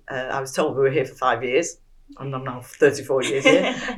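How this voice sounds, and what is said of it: Manchester English accent. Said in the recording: “I'd moved from Manchester, as you can probably tell by my accent”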